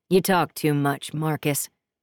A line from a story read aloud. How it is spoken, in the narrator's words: Price says